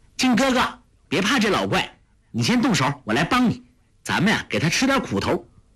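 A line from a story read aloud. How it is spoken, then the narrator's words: Calling out. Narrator (Chinese): 就叫道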